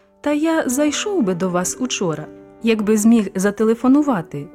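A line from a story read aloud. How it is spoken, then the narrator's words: Plain. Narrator (Ukrainian): відповів дядько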